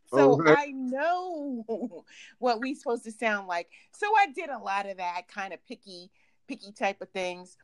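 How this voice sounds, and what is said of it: New York accent. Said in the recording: “I know I'm from New York. Check out this accent.”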